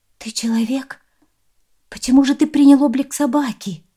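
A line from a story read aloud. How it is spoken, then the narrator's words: Exclaimed. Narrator (Russian): воскликнула Аймань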